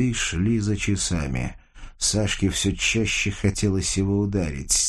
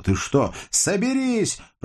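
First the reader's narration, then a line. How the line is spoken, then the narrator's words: Shouting. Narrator (Russian): прокричала Сашка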